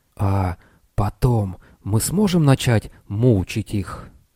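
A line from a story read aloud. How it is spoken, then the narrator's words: Purple man's daring hiss. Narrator (Russian): Пурпурный человек, державший Лестера, отважился прошипеть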